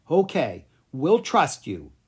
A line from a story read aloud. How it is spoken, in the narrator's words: the prince said